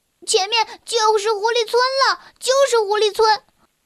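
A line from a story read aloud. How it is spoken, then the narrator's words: Excited cry. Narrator (Chinese): 小薇兴奋地叫出声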